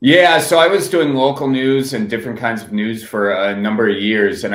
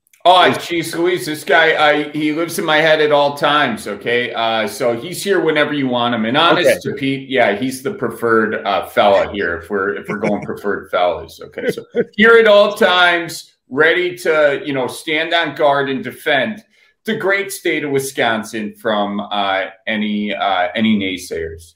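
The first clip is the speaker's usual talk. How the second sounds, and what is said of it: Exaggerated Wisconsin accent character. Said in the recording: “that accent or that character ... your Wisconsin accent ... a Wisconsin character”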